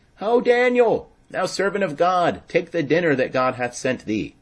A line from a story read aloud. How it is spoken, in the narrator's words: Habakkuk cried, saying